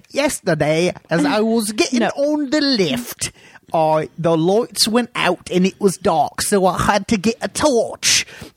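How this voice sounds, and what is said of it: Put-on Cockney accent. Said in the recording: “I'm going to do this entire segment in a Cockney accent. ... It's quickly deteriorating from Cockney.”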